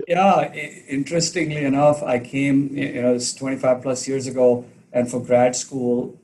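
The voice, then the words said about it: Indian-accented English. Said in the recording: “I'm sure people have heard from your accent, but you are Indian.”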